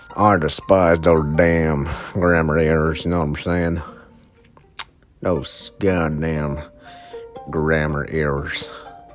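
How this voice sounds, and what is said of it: Put-on southern accent. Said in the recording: “the southern accent”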